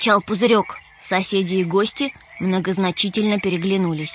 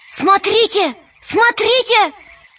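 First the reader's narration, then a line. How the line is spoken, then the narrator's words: Shout. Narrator (Russian): пузырек закричал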